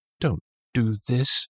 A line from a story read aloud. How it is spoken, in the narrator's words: begged